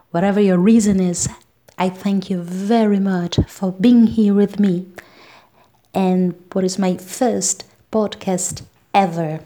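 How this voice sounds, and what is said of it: Melodic voice with unusual accent. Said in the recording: “the melodic tone of my voice and my weird accent”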